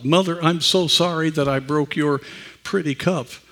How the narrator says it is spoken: sobbed

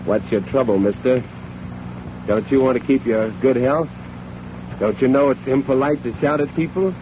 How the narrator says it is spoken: he would have said in a cold, steely voice

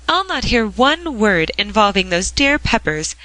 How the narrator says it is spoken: cried Madame Dyce

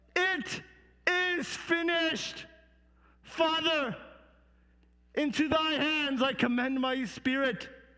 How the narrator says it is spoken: And then he cried

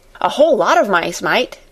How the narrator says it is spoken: he said cheerfully

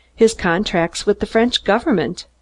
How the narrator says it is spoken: I replied

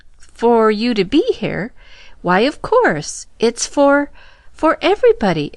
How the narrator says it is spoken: exclaimed the young woman

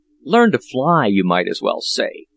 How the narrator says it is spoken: retorted Peterkin in a very sulky tone

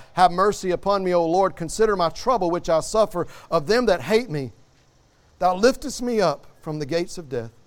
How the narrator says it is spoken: he cried out

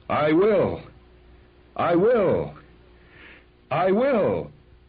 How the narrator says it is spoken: John was running down the ramp toward the track, waving his arms and shouting

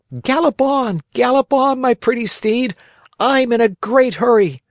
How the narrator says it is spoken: he cried out gaily

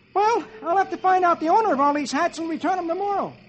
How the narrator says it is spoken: Dagwood scratches his head, looks at the hats, and exclaims

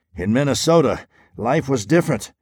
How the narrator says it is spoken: muttered another private

